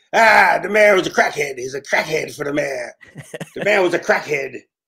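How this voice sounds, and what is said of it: Poor imitation of a comedian's voice. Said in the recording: “terrible Chris Rock impression”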